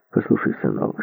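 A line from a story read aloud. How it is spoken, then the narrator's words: Plain. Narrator (Russian): сказал Добзин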